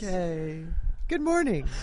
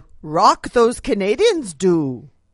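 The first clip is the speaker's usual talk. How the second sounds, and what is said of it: Bad Canadian accent, Yoda-like voice. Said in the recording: “that's the worst Canadian accent I've ever heard, but I realized it's the worst Yoda also ... It was Canadian Yoda.”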